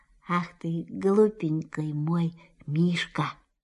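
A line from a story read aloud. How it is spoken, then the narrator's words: Tender whisper. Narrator (Russian): Кристофер Робин ласково прошептал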